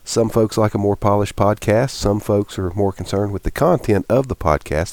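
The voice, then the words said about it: Congested voice from head cold. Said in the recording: “My voice is a little off in some parts of this podcast today. ... I come down with a little bit of a head cold. ... starting to clear up some. So it did sound much worse”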